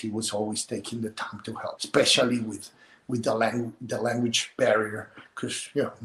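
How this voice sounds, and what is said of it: Non-native English accent. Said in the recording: “I can speak English with my accent. That's something I will never lose ... I have my son making fun of my accent sometimes”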